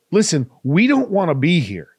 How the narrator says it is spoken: Jace exclaimed

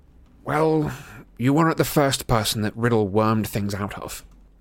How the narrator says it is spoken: Harry muttered

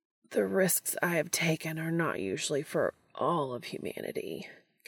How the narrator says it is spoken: Castiel groans

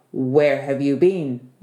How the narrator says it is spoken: the Tsar asked

